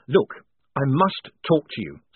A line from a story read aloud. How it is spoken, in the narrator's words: said the man urgently